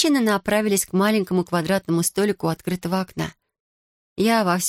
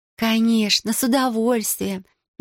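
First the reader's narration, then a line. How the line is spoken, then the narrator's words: Purring. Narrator (Russian): мурлыкнула Тиёко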